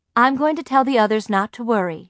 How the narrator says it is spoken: she said

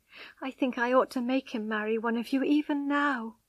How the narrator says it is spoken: she sobbed

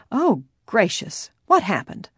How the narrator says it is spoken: Salisbury, who was in the garden, exclaimed

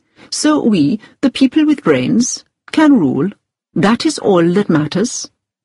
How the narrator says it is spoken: he said gently

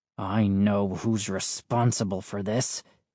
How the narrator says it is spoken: he said bitterly

